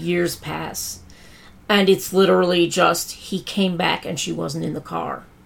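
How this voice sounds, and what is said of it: Very hoarse voice. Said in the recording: “my voice is getting very hoarse”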